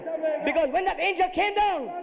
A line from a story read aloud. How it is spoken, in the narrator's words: he cried a loud voice